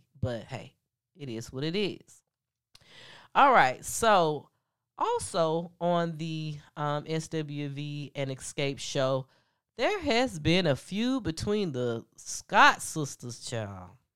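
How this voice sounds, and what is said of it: Congested, stuffed-up deep voice. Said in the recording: “I'm very stuffed up today, so excuse my voice. I know it's already deep, but when I'm stuffed up on top of having a deep voice, I sound extra crazy.”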